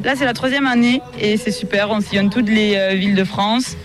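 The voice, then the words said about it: Slight regional French accent. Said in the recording (French): “Vous avez un petit accent quand même, mais c'est pas tout à fait celui de la Bigorre.”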